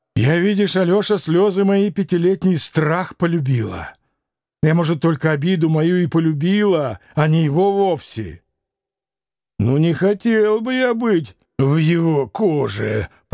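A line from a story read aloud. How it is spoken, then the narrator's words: Hiss. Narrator (Russian): прошипел Ракитин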